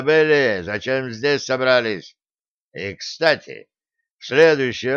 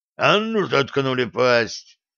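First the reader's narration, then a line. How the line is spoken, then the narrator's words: Growled. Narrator (Russian): зарычал Греф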